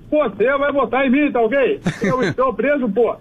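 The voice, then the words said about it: Imitates another person's voice. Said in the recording (Portuguese): “E tem o Bolsonaro também.”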